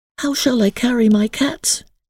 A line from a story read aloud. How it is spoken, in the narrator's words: asked Emily anxiously